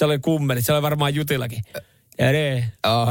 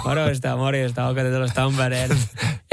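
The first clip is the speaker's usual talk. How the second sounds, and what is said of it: Put-on Tampere dialect. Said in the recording (Finnish): “joku vetää Tampereen murteella?”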